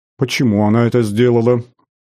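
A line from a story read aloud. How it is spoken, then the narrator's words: Irritated mother. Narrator (Russian): раздраженно уточнила мать, недовольная слишком кратким ответом сына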